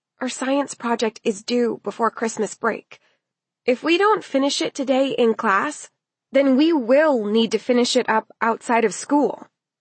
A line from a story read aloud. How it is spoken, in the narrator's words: Elle told her in a worried voice